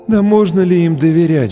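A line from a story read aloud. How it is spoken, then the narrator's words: Sigh. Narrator (Russian): вздохнул кто-то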